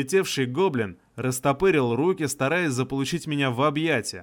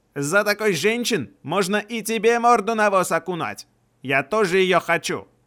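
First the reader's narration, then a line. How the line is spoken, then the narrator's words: Shout. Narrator (Russian): выкрикнул второй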